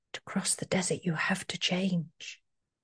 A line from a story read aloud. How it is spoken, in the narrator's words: a tiny voice, as if on the wind, whispered